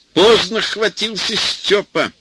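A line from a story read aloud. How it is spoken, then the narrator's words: Loud. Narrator (Russian): громко сказал Васька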